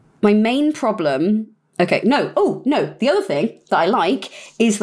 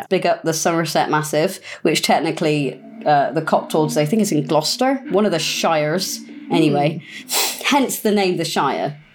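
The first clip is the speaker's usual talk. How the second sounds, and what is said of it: Put-on Somerset West Country accent. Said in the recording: “southwest of England ... Somerset ... I can't not talk in that accent when I start talking about it”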